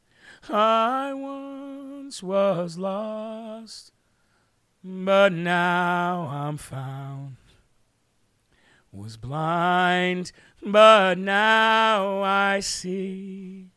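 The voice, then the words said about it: Imitates another person's singing voice. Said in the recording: “I tried to do my best Dave Bray impersonation there”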